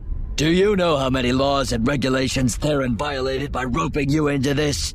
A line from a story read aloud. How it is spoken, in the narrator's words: He shouted at her